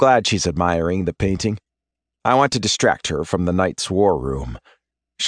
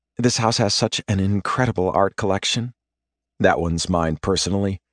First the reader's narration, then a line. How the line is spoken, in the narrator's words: Exhaling a wistful sigh, she says